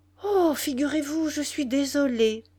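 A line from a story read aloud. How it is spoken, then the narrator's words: Exclaimed. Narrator (French): s'écria Nana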